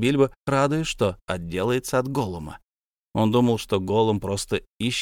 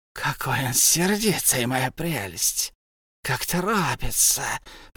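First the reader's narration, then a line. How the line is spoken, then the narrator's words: Hissed. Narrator (Russian): прошипел Голум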